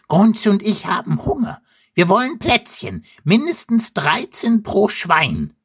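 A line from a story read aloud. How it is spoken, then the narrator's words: Pig squealing. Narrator (German): quiekt Wilde Wutz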